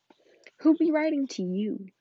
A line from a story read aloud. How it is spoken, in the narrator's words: sneered Uncle Vernon